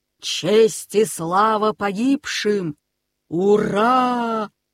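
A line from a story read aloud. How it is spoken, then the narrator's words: Thunderous shout. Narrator (Russian): громовым голосом закричал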